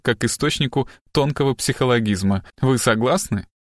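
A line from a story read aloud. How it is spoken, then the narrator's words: Short guffaw. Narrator (Russian): коротко хохотнул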